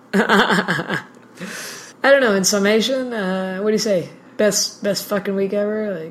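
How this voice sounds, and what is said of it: Voice sounds damaged and rough. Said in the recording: “my voice is still terrible”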